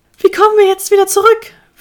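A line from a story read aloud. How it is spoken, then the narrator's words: Whimpering. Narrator (German): wimmerte Hemi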